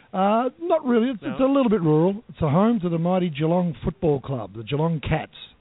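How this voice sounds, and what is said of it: Australian accent. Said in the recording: “everybody's going to love your accent ... I'm an Aussie. I'm from down under.”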